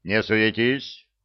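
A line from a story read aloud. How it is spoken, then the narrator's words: Stern. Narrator (Russian): строго сказал капитан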